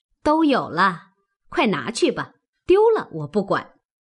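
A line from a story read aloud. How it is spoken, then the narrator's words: Laughing. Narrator (Chinese): 凤姐笑道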